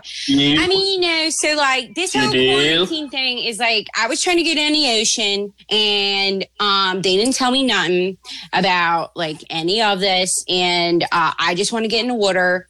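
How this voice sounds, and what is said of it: Put-on Baltimore mid-Atlantic accent. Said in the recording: “Baltimore accent is my favorite accent to do if I'm ever doing some improv ... it's the South Jersey accent ... It's a mid-Atlantic accent.”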